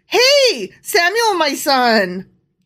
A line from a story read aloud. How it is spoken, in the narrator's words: Eli called out to him